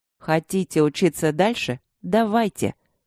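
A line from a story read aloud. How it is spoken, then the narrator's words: Icy cold tone. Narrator (Russian): ледяным тоном произнес он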